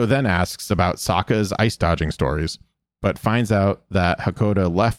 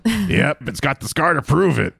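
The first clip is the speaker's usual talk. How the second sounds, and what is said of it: Imitates a character's voice. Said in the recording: “I'm going to do my best Sully impressions too”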